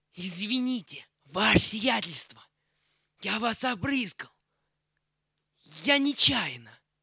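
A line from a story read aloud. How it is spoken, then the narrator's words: Cough, then whisper in ear. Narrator (Russian): Червяков кашлянул, зашептал генералу на ухо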